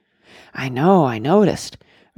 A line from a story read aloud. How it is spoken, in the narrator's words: Randy murmured, looking at him in awe